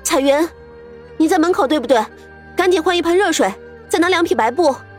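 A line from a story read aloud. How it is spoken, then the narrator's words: Calling from inside. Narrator (Chinese): 屋子里却突然传来苏月心的呼喊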